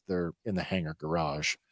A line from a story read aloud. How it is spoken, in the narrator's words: In a downtrodden voice, Benny says